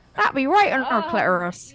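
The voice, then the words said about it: Put-on West Country English accent. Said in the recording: “another West Country accent again”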